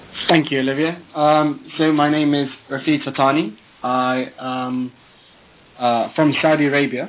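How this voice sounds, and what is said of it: British accent. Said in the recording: “As you can hear from my tone of voice, I have a very British accent.”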